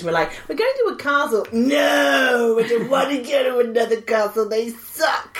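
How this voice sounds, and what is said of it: Put-on American accent. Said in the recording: “I don't know why I'm saying in an American accent. Am I doing that weird thing? ... my accent goes all weird, my mouth's confused.”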